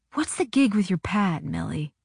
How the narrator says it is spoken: he whispered back

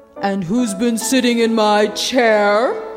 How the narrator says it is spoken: growled the Father Bear

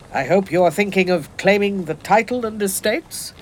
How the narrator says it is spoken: My father said this gaily

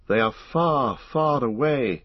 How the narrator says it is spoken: he said sadly

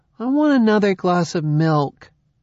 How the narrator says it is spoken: said in a petulant tone

